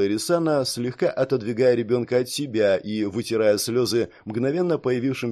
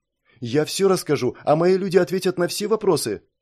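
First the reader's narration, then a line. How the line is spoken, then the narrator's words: Rapid, tearful, fearful girl. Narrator (Russian): затараторила девочка, вытирая слезы, боясь, что Ирисана поменяет собственное решение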